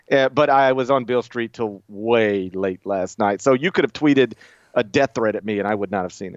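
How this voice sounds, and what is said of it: Speaks with a regional accent. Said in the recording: “it sounds like you're saying Bill Street, but with an accent ... I adore your accent”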